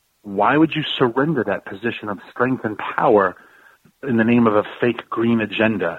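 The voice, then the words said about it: Frustrated, exasperated tone. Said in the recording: “you can hear the frustration in my voice.”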